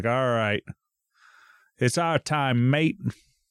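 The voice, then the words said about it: Bad mock Australian accent. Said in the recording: “Terrible accent. ... It's like a mix between a 1920s announcer and something else.”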